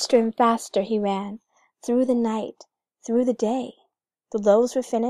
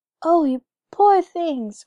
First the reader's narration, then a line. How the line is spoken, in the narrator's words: cried the Lapland woman